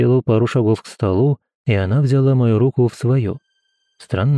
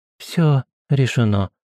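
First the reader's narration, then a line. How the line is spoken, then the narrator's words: Soft but firm female. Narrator (Russian): мягко, но в то же время твердо ответила она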